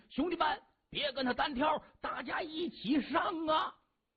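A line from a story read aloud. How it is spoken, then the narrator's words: Loud shout. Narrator (Chinese): 一名南红门头目高声喝喊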